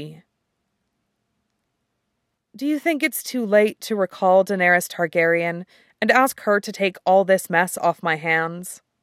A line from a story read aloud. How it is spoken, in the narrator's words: Sansa sighs